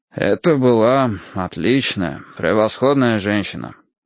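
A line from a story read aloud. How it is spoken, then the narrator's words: Sighing. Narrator (Russian): вздохнув, сказал он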